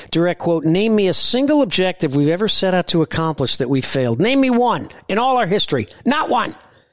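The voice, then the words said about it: Angry raised-voice impression of another person. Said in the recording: “Now, he was angry. ... Very. ... pretty good impersonation ... he raises his voice”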